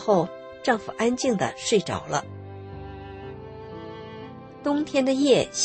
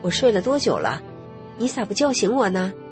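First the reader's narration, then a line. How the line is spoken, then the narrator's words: Plain. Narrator (Chinese): 说完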